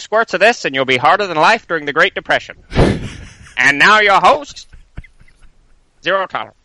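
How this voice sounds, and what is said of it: Exaggerated radio announcer voice. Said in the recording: “That's a good voice ... that announcer voice is pretty great too”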